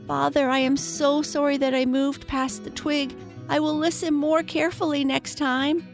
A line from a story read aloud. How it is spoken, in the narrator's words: he cried